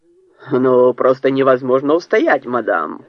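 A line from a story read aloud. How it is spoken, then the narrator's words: Booming voice. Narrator (Russian): прогремел Фред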